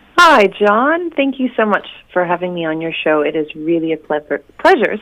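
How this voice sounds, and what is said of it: American accent, unlike New Zealand speech. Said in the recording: “a slightly different accent to a New Zealander ... I'm originally from Oregon ... I have a bit of a strange accent”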